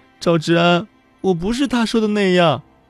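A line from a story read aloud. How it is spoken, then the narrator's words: Sorrowful, tearful. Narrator (Chinese): 宋小茹哭丧着脸说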